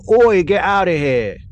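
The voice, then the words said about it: Mock Cockney accent. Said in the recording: “She turns cockney? ... I mean, I'm not good at accents.”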